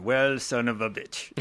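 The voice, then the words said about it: Put-on French accent. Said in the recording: “his French accent”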